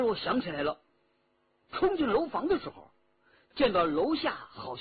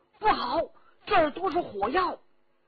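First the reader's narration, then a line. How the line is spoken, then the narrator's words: Shouting in secret code. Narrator (Chinese): 徐天红又切口大叫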